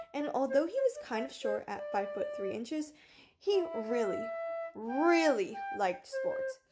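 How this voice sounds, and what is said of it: American accent. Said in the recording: “excuse my American accent”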